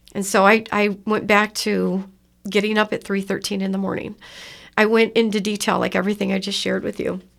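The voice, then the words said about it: Emotional, cracking voice. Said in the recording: “my voice is cracking like it is now, like it always does”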